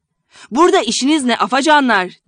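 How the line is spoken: Shouting. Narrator (Turkish): diye bağırınca

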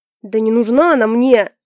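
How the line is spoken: Barked, losing patience. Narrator (Russian): не выдержав, рявкнул Альфред

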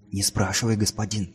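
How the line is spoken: Tearful whisper, boy. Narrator (Russian): прошептал мальчик, и на глазах его выступили слезы

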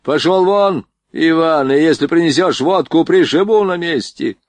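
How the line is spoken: Shout. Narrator (Russian): крикнул Борейко

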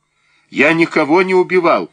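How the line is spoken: Shouted. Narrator (Russian): крикнул Баранов

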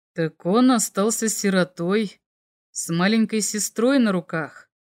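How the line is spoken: Thoughtful drawl. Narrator (Russian): задумчиво протянул наместник

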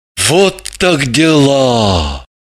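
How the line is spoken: Sorrowful sigh. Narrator (Russian): Горестно выдохнул Граблин

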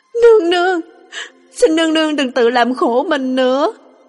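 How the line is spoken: Crying. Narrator (Vietnamese): Lục Ly khóc lóc

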